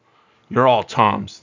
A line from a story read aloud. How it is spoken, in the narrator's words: the old one cried piteously